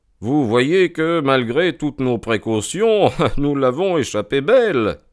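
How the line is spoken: Laughing. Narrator (French): me dit Holmes en riant

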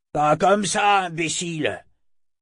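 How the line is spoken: Roaring. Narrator (French): rugit le second

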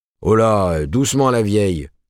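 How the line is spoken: Growl. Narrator (French): gronda Higginbotham

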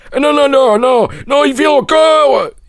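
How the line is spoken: Scream. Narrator (French): hurla

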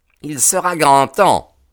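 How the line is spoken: Exclaimed. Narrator (French): s'écria Ted Baldwin

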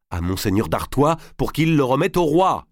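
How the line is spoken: Shouted. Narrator (French): cria Marguerite

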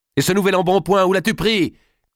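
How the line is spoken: Shouted. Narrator (French): cria Dame Eliabelle

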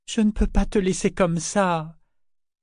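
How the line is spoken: Moaning. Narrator (French): gémit Kefria

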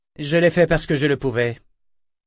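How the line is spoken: Cold tone. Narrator (French): dit-il froidement

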